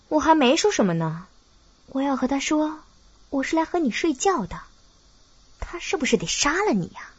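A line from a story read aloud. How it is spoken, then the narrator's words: Plain. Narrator (Chinese): 白洁一边说着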